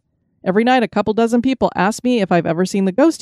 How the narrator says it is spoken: he said

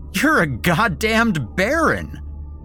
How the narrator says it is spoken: I shouted, laughing hysterically

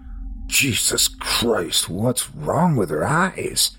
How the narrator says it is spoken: Henry asked, his voice wavering

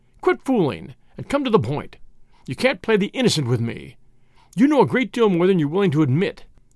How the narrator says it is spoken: said Whittington angrily

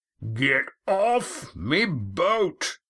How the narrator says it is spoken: Roaring Jack bellowing

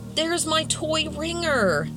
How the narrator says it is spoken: immediately Jillian yelled

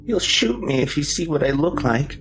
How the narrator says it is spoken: Charlie whimpered

